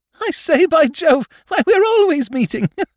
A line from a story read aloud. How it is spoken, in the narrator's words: the gurgling laugh rippled the air